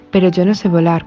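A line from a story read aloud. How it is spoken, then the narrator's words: Plain. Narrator (Spanish): contestó el hijo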